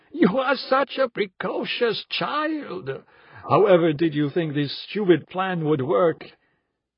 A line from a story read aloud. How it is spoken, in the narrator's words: I said through fits of laughter